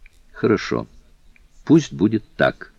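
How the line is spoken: Plain. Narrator (Russian): ответил мистер Фок

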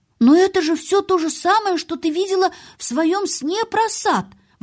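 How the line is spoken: Exclaiming. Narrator (Russian): воскликнул он

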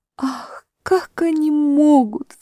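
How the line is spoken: Sobbing. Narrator (Russian): всхлипнула Люси

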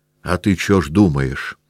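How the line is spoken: Squeaky trembling soldier's voice. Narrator (Russian): пескливым и дрожащим голосом заговорил востроносенький солдат, которого называли Ворона

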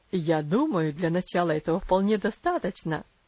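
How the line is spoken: Father laughing. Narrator (Russian): засмеялся отец

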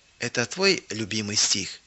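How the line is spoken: Quiet question. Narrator (Russian): Элла тихо спросила

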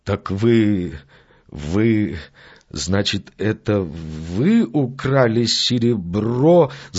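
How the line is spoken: Stammering, bewildered question. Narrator (Russian): запинаясь, спросил мистер Одли, с недоумением

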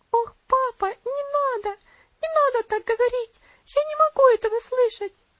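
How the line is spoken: Sobbing exclamation. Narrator (Russian): воскликнула она с рыданиями

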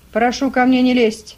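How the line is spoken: Fierce snapping. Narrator (Russian): свирепо огрызнулся мулат

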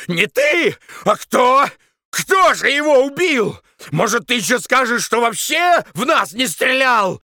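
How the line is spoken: Furious yelling. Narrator (Russian): Яростно орал Таманцев

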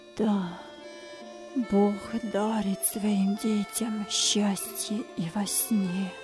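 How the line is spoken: Quiet, joyful father. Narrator (Russian): радующийся отец майрат тихо произнес

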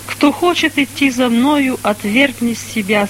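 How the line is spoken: Plain. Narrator (Russian): сказал Христос

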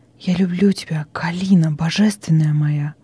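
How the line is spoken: Trembling whisper. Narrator (Russian): зашептал дрожащими губами

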